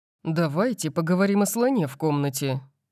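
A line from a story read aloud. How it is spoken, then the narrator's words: Grim tone. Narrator (Russian): сказал Макс мрачным тоном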